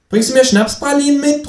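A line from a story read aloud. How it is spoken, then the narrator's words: Calling out. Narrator (German): ruft das Känguru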